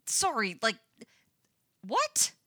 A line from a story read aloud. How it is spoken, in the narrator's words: sputters Lucas